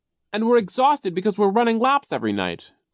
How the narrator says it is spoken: Klaus cried

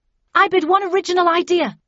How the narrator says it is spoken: I shouted

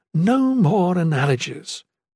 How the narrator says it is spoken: Erin pleaded

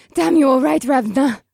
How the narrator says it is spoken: Akira panted

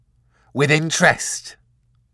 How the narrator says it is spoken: barked Mr

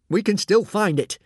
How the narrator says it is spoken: said Alvin urgently

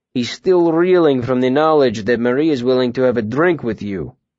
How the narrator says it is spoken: Willem said dryly

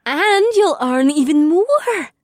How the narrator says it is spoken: Amber said as she nodded happily

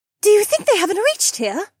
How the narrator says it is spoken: Becca asked excitedly

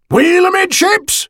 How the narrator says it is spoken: Barnes shouted

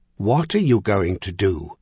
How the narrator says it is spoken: the Emperor continued in that same unyielding voice

